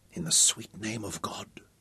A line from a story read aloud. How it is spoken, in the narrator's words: whispered Al-Malik, and he felt his heart swell so that his breath came short